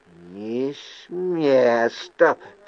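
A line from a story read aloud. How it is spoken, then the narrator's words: Hoarse rasp. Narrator (Russian): прохрипел он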